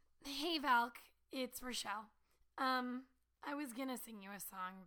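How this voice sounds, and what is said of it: Strained, unwell-sounding voice. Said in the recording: “as you can kind of tell from my voice right now, it's not happening”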